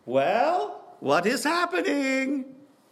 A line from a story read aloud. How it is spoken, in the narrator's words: Alexander yelled out to Menachem